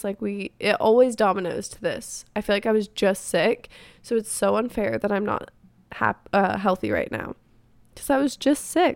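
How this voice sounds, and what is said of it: Congested, stuffy-nosed, hoarse voice. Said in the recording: “I just like cannot get uncongested ... now I have a stuffy nose and I'm just losing my voice.”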